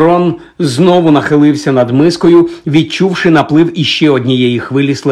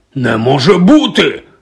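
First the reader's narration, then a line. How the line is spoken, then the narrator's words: Barked. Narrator (Ukrainian): гаркнув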